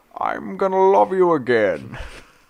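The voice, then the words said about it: Singing in Bane voice. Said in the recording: “Imagine him singing as Bane in his Bane voice.”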